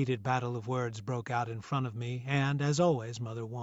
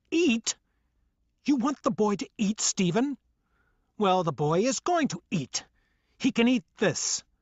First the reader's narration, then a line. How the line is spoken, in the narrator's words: Mother yelled at the top of her lungs